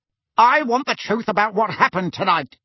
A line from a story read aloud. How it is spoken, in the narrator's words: barked Uncle Vernon